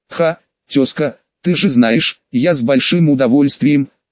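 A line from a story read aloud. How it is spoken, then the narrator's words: Loud laughing. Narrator (Russian): Кутузов расхохотался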